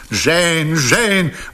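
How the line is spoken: Exclamation. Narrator (Russian): воскликнул лорд Рафтон

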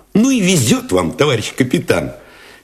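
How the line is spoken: Cheerful admiring exclamation. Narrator (Russian): Весело, даже восхищенно воскликнул Алешин

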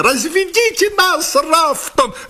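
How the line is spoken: Shriek. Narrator (Russian): взвизгнул

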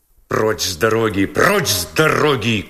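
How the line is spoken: Policeman's rough shout. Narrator (Russian): грубо крикнул полисмен

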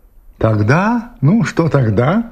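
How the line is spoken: Plain question. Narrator (Russian): спросила она

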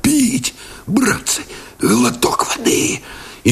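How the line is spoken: Hoarse wheeze, parched. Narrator (Russian): просипел

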